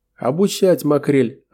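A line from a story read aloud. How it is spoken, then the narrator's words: Loud laughter. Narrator (Russian): расхохотался Асани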